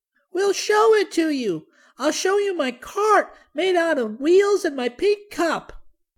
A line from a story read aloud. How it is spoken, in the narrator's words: cried Benny